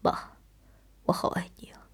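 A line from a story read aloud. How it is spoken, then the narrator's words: Tender murmur. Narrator (Chinese): 我爱怜地，喃喃地说道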